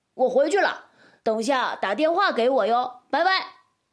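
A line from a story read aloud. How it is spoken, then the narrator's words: Shouting from a distance. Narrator (Chinese): 一直站在大门口的大头挥手嚷道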